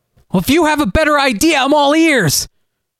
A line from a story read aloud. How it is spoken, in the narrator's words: Galen shouted